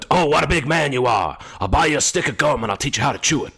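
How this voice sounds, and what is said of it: Al Pacino impression. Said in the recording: “I went into Al Pacino mode as well, and I did an impression relating back to last week's episode from Glengarry Glen Ross ... doing Al Pacino impressions into their face”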